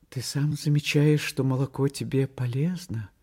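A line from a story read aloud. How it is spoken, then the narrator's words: Guilty voice. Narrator (Russian): Таня сказала виноватым голосом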